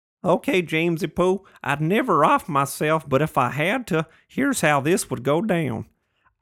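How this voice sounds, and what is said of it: Put-on Texas accent. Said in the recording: “he's from Texas, so let me try my Texas voice.”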